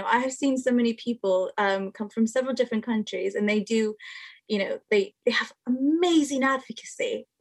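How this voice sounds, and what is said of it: American accent. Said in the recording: “I do have an American accent”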